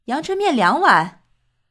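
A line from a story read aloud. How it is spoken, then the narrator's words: Calling out. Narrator (Chinese): 对老板喊道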